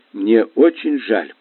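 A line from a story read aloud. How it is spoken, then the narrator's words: Mumbling. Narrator (Russian): пробормотала я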